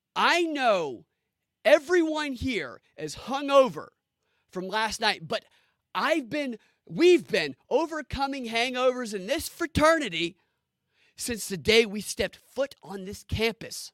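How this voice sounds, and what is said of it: Impression of Vivek Ramaswamy. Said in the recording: “my impersonation of how Vivek spoke the entire debate ... This is my Vivek.”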